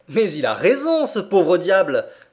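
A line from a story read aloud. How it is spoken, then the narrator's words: Exclaiming. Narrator (French): s'écriait-il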